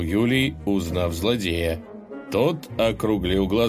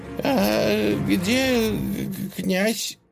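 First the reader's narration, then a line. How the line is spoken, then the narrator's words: Horse asking, trembling voice. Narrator (Russian): дрожащим голосом спросил конь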